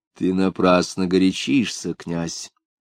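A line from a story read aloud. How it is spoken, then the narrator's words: Calm. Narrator (Russian): спокойно сказала императрица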